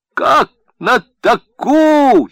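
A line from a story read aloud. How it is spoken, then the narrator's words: Loud bark again. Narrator (Russian): Еще раз рявкнул Благодарев, шаля силой легких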